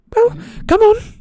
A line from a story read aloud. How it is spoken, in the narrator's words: said Hermione, slightly nervously